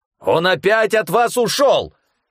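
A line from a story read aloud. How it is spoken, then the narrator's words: Sudden bark. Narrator (Russian): Внезапно рявкнул Эрхазепа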